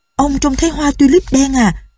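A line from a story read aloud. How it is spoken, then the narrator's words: Excited cry. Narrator (Vietnamese): Rosa reo lên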